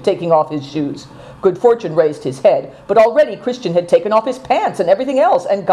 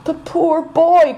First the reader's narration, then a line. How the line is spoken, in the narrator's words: cried Affliction